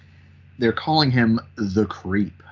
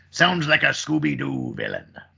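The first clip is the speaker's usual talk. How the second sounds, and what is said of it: Pirate character voice. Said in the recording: “in my pirate voice.”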